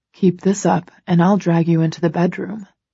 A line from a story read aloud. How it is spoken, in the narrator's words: he murmurs